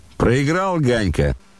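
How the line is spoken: Shouted. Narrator (Russian): крикнул он

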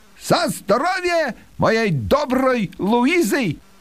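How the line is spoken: Loud toast. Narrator (Russian): громко произнес по-русски

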